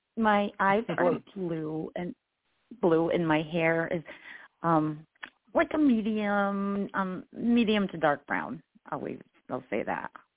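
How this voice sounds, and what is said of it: Slightly hoarse voice. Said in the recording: “forgive my voice. ... I'm a little hoarse.”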